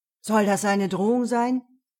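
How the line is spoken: Sharp question. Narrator (German): fragte Basilio scharf

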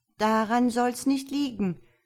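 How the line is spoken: Woman calling out. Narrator (German): ruft die Frau aus Dunster

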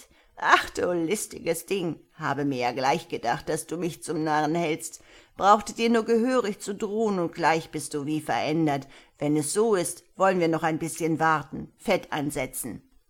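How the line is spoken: Giggling while speaking. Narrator (German): sagte, kichernd

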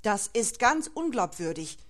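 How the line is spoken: Agitated defender's exclamation. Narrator (German): rief der Verteidiger erregt

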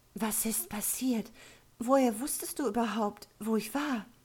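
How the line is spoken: Trembling question. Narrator (German): fragte Evelyn mit zitternder Stimme

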